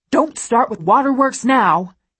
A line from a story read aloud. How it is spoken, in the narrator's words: he snaps